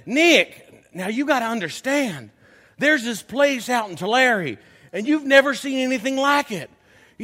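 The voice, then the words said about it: Thick Kentucky accent imitation. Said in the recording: “has quite a thick accent. He's from Kentucky”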